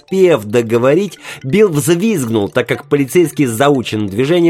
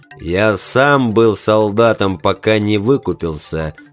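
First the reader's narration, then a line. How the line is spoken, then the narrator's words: Deep bass voice. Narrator (Russian): пробасил полицейский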